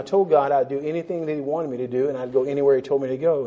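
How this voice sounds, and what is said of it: American accent. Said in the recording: “because of my accent, I always have instant witnessing opportunities. I go someplace and people said, So what part of the United States you're from?”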